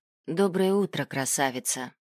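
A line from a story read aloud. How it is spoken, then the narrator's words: Tender yet sad. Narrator (Russian): Ил ласково улыбался, но в глазах застыла печаль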